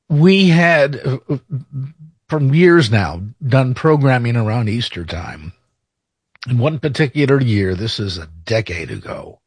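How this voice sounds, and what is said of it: Choked-up, emotional voice. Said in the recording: “Pardon me for getting choked up.”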